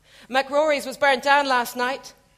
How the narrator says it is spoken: cried

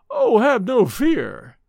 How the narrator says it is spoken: exclaimed with a sudden lighting up of his dark face

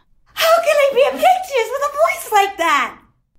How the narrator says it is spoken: she wailed

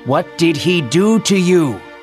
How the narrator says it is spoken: they yelled

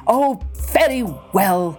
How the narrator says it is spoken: said the chief crossly

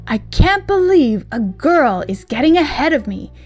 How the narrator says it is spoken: he exclaimed

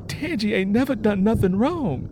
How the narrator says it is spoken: Lennie Gray cried out

